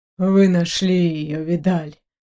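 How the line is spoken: Relieved exhale. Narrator (Russian): облегченно выдохнул Левин

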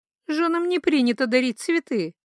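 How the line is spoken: Laughing. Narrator (Russian): Все еще смеясь

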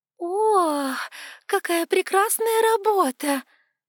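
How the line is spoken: Sudden exclamation, woman. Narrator (Russian): воскликнула вдруг какая-то женщина рядом

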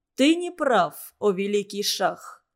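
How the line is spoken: Calm objection. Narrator (Russian): спокойно возразил Зодчий

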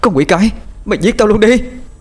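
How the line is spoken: Woman screaming. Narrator (Vietnamese): cô hét lên

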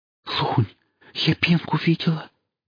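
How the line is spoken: Quick breathless whisper. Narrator (Russian): прошептала она, быстро, на одном выдохе

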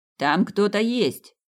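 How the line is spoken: Excited shout. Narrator (Russian): возбужденно закричал полицейский

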